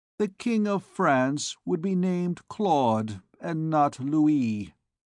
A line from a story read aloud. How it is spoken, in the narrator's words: replied the archdeacon, articulating his words slowly, like a man who is reflecting